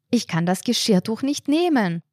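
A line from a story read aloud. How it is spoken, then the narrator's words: Annoyed call. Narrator (German): rief die blaue Frau verärgert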